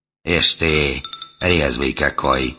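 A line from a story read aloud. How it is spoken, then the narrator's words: Good-natured hoarse voice behind. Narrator (Russian): добродушно произнес хрипловатый голос за моей спиной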